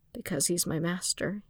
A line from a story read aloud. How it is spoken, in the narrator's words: he replied quietly